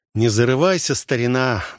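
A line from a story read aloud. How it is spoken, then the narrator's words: Sighing remark. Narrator (Russian): вздохнул Олег над ребячеством друга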